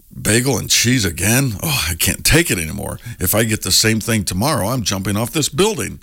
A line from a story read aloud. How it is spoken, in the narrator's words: The Frenchman groans